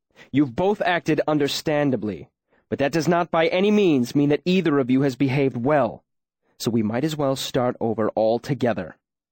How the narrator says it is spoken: Kvothe said angrily

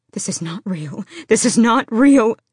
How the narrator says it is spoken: she gasped, as a wet warmth soaked her pants

